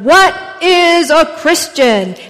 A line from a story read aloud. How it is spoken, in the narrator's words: the minister once again he thundered